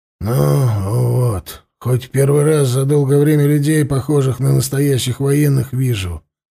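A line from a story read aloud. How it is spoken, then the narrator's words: Grumbling. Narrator (Russian): буркнул он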